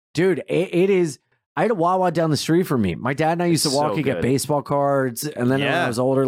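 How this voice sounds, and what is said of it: Usual voice. Nothing is said of it.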